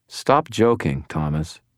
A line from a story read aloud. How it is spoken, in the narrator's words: told him in an even tone